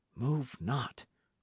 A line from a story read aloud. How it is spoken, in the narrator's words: whispered Dick